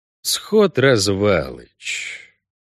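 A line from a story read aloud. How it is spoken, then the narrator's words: Soft drawl. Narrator (Russian): протянул Геральт, мягче, чем говорил обычно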